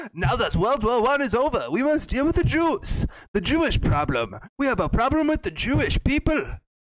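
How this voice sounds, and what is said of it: Poor put-on German accent. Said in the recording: “you don't have a good German accent”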